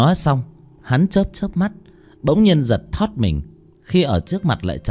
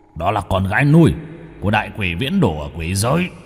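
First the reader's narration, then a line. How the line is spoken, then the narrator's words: Hurried low voice. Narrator (Vietnamese): Hắn vội hạ giọng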